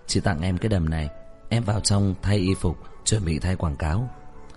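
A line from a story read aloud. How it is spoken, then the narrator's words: Kind caring voice. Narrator (Vietnamese): nói bằng giọng ân cần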